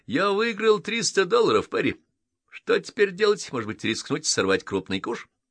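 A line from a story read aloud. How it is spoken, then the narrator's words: Pleased, cheerful. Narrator (Russian): довольного Дрейка, который весело сообщил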